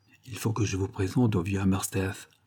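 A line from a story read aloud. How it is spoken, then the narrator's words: Murmured. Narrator (French): murmura-t-il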